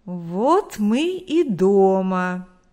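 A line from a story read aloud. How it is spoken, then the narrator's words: Drawled. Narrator (Russian): протянул Виктор Егорович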